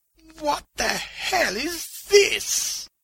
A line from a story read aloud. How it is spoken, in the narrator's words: the old man whimpered